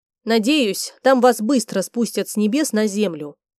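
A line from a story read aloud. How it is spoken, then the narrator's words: Grumbled. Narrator (Russian): буркнула женщина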